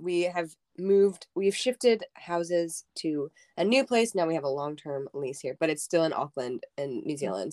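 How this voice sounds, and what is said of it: Losing her voice, strained. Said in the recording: “I'm losing my voice.”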